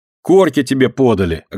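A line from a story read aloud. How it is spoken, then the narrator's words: Snapping retort. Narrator (Russian): огрызнулась Динка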